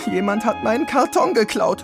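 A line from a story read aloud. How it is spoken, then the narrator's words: Sobbing. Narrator (German): schluchzte er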